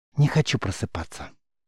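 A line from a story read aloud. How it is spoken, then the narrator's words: Whisper. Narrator (Russian): шепнула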